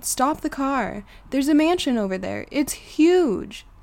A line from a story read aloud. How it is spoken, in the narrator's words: Suddenly, yelled